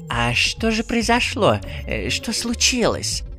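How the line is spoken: Whispered question, old witch. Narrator (Russian): шепотом спросила баба-яга

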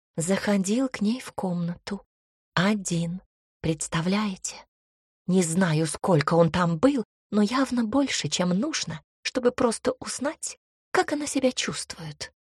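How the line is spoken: Loud whisper, young woman. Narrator (Russian): громким шепотом рассказывала одна из девиц

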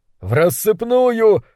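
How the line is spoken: Shouting. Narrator (Russian): выкрикнул кто-то

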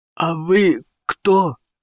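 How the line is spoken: Forced out with difficulty. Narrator (Russian): с трудом выдавил он из себя

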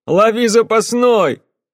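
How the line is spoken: Shouted. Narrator (Russian): крикнул

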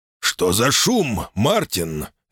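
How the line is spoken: Master barking. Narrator (Russian): рявкнул хозяин

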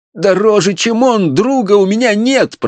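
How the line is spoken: Student moaning. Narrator (Russian): простонал студент

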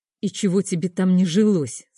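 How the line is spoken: Through gritted teeth. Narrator (Russian): сквозь зубы процедил Саша

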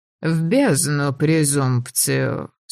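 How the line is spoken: Sleepy dismissal. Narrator (Russian): сонно отмахнулась королева

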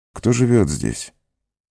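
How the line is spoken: Weak question. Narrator (Russian): слабым голосом спросил он

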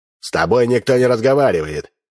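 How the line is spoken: Sharp rebuke, man. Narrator (Russian): прикрикнул на нее солидный мужчина в штатском

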